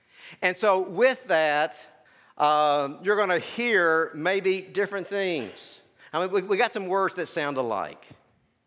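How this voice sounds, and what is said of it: Texas accent, lazy drawl. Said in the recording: “I have a Dallas accent. ... I have a lazy Texas tongue.”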